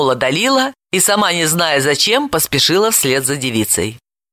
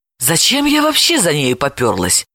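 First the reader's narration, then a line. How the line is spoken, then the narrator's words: Self-scolding, flustered. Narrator (Russian): ругала себя Далила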